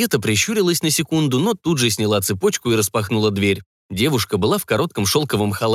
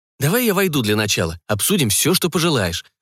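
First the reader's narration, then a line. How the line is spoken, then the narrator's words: Irritated exhale. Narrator (Russian): произнес Арно, раздраженно выдохнув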